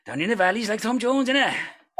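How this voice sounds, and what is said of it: Put-on Welsh accent. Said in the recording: “sometimes I love to do a little bit of Welsh as well”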